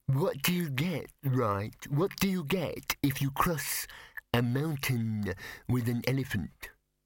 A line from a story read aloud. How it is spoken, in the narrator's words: the first yeti said, very slowly, because it had been working this out for a long time